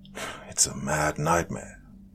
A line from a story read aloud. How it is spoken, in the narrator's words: I muttered